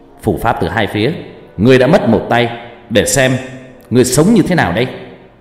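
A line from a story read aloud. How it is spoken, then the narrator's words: Young man shouting. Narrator (Vietnamese): Anh chàng bên kia trông cũng trẻ trung hét lên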